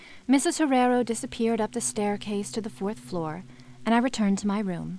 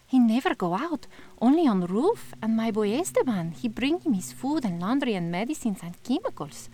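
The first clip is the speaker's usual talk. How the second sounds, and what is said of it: Put-on foreign accent for character. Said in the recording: “I couldn't say it with my normal accent.”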